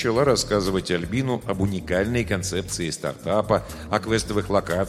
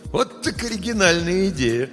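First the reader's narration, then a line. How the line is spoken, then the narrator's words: Laughing unexpectedly. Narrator (Russian): Соня неожиданно для себя рассмеялась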